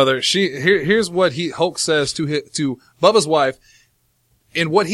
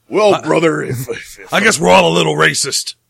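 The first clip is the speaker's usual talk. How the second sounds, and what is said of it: Hulk Hogan impression. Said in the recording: “I can do my best Hogan impression.”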